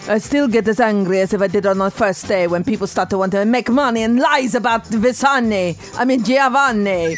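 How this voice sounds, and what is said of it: Imitates another person's voice. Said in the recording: “let me just do her voice.”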